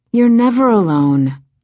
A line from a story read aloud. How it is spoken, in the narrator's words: Ren said, sighing again